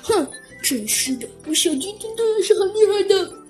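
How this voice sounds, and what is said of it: Quiet muttering voice. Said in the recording (Chinese): “小声的嘟囔了一句”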